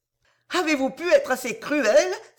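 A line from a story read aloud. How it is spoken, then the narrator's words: Violent outcry. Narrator (French): s'écria Mme Harel avec encore plus de violence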